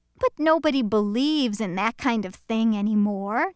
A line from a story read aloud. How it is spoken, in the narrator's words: Norman scoffed